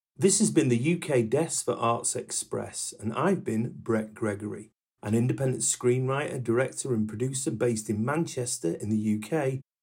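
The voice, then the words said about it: Northern English accent. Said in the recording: “Northern Intellect Northern Passions, and the Northern Accent.”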